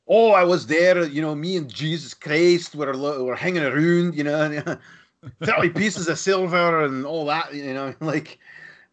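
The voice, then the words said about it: Put-on Scottish accent as Dracula. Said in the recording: “that accent is not Hungarian ... He's Scottish”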